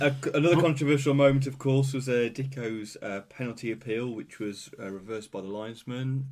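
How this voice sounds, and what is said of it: Usual voice. Nothing is said of it.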